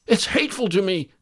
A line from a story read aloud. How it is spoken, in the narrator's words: cried Midas